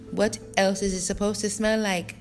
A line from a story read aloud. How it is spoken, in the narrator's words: snapped Orlu